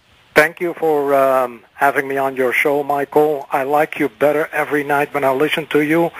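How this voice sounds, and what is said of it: Dutch accent. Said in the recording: “I got your accent. You are the Dutchman”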